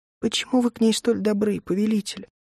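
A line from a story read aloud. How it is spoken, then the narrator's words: Whisper. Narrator (Russian): прошептала мать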